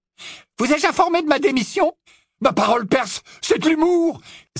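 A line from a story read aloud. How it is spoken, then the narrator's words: Exclaimed. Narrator (French): s'exclama Fred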